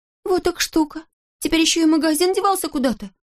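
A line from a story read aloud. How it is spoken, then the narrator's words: Annoyed exclamation. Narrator (Russian): с досадой воскликнул Козлик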